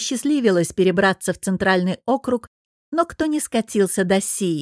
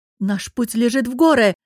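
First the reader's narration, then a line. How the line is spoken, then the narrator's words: Shout. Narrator (Russian): выкрикнула Софья и облегченно вздохнула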